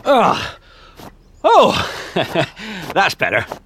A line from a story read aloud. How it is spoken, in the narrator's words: panted Mr